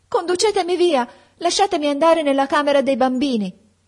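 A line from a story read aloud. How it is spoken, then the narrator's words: Shouting. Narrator (Italian): gridai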